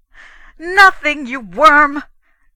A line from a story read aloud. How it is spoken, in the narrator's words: Gusterson roared